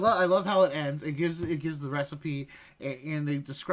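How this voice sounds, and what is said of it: Usual voice. Nothing is said of it.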